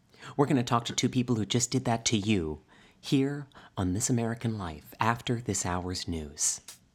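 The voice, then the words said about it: Ira Glass impression. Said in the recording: “I don't know Ira Glass personally. ... That was a pretty good impression”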